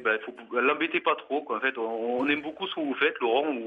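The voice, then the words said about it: French provincial regional accent. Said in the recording (French): “j'ai un vieil accent provincial dont j'ai pas su me débarrasser ... avec des accents pareils”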